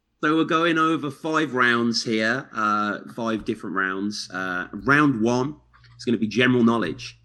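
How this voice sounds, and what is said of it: UK accent. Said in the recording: “that dope UK voice that we all like know and love and trust ... Y'all know that accent.”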